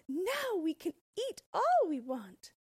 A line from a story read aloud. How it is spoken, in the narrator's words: they shouted